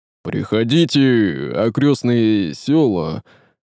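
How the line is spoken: Gloomy mutter under breath. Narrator (Russian): Уныло пробормотал себе под нос Горыня

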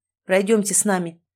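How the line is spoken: Cold, threatening command. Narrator (Russian): приказ прозвучал холодно и даже угрожающе

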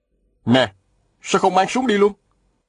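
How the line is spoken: Shout. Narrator (Vietnamese): Viên Thừa Chí la lên

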